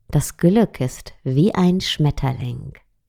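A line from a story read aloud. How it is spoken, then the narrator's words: Plain. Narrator (German): sagte die Meisterin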